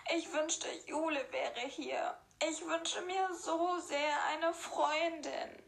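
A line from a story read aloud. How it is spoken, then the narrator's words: Sobbing to herself. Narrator (German): sagte schluchzend zu sich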